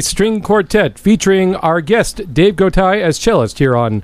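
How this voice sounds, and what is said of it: Radio announcer voice. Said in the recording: “announce it. Let's do an announcer voice.”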